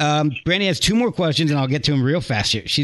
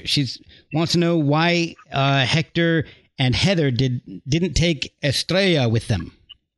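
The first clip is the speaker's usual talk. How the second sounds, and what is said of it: Put-on Spanish accent on a name. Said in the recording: “That's my Spanish accent.”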